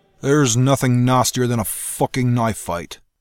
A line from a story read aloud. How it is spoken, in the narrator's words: Russ growled as he stood knee-deep in carnage, his chest heaving